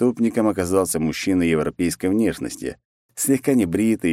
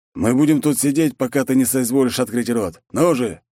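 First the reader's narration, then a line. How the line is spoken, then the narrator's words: Barking shout. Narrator (Russian): гаркнул Такахаси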